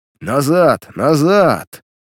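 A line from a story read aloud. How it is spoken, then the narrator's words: Thunderous shout. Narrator (Russian): громовым голосом закричал он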